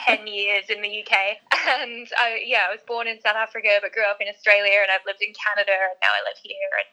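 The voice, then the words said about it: Australian accent, slightly mixed. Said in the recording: “I'm Australian, as you might be able to tell from the accent, although it's a little bit confused.”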